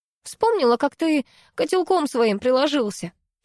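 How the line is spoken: Giggling. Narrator (Russian): хихикнула я

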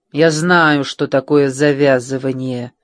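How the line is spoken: Through gritted teeth. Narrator (Russian): сквозь зубы ответила София

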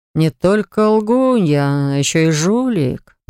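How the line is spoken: Drawling. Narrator (Russian): протянул Хакл

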